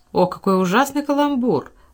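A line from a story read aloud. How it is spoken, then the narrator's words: Exclaiming. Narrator (Russian): воскликнула Беренис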